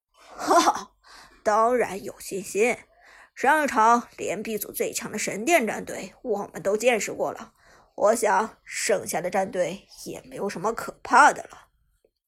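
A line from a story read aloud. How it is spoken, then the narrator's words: Affected, faint smile. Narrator (Chinese): 桑德教练淡淡一笑，拿腔拿调的说道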